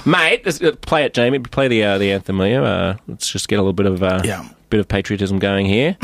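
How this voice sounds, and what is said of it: Australian accent. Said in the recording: “my Australian accent ... But talking your real accent. Don't overdo it. Can't fake it.”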